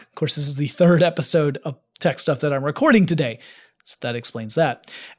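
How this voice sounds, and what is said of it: Worn-out, tired voice. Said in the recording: “my voice gets, you can hear it now. My voice is getting worn out the more I talk”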